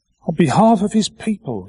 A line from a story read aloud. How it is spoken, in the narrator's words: he cried out